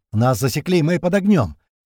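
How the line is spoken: Shout over gunfire. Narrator (Russian): прокричал он на фоне все разгорающейся стрельбы

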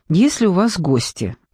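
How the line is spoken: Sighing ghost. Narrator (Russian): вздохнув, сказал призрак

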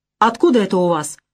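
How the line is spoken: Hostile shout across table. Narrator (Russian): враждебно крикнула мадам Лизагуб

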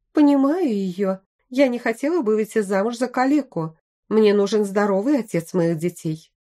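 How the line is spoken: Preachy tone. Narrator (Russian): поучительным тоном сказала первая

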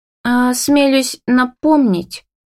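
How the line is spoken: Hesitant. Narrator (Russian): произносит неуверенно

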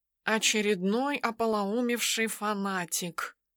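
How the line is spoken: Quiet reply. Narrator (Russian): отозвался он негромко

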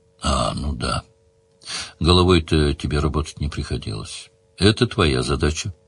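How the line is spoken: Calm girl's reply. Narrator (Russian): спокойно ответила девчонка

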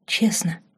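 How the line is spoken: Whisper. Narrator (Russian): шепнула она ошарашенному Марку

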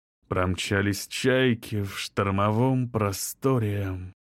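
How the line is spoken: Purring. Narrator (Russian): промурлыкал он

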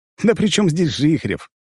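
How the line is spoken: Snort. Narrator (Russian): хмыкнул я

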